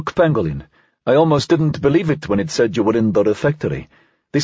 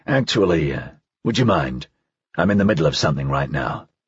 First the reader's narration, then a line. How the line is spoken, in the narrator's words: he said quietly